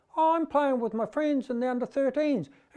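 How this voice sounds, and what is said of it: Squeaky high-pitched voice. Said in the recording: “in the squeaky voice”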